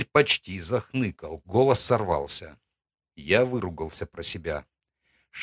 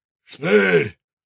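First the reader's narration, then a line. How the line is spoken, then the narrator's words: Barked from outside. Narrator (Russian): рявкнули снаружи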